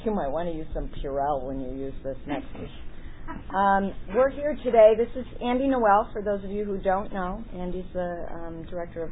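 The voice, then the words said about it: Hoarse, strained voice. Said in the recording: “I'm starting to lose my voice a little bit here”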